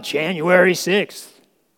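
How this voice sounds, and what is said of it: Imitation of President Biden. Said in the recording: “that was not my best Biden imitation, by the way. I could do better”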